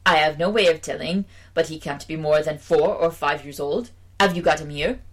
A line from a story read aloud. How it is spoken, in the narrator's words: replied in an assured tone